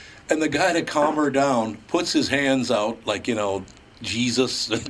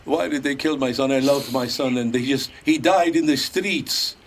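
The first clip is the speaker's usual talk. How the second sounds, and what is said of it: Imitates another person's accent. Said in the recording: “she's doing the whole Bela Lugosi accent”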